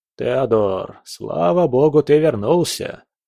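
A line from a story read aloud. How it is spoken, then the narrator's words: Relieved exhale, old man. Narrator (Russian): Старик облегченно выдохнул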